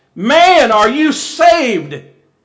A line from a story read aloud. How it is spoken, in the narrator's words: he cried out